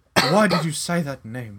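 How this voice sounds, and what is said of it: Put-on English accent. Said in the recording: “in an English accent”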